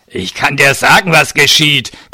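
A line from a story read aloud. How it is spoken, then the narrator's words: Hulking man growling. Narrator (German): knurrte der Fleischberg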